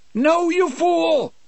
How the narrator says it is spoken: Brutal yelled

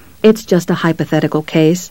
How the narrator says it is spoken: Mary said soothingly

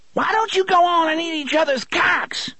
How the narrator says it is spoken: the struggling thing screeched

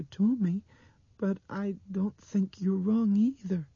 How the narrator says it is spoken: Dinah said in a small, wavery voice

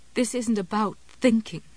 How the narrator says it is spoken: Jessie said shakily

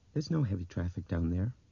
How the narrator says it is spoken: Laurel said in the same dull voice

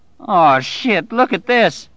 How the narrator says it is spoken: Bobby Terry cried in utter dismay

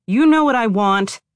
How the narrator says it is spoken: the man shouted

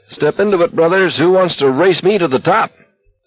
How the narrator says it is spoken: Somewhere up ahead, Barkovich called out merrily

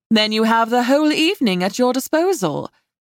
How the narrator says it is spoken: Nova said brightly

